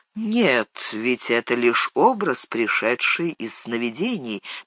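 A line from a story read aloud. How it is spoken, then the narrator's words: Soft, gentle. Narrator (Russian): мягко сказал Фарамир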